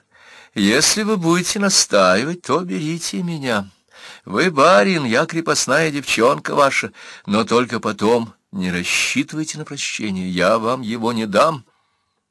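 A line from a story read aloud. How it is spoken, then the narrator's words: Even, slightly mocking. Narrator (Russian): продолжала ровным, немного насмешливым голосом Аглая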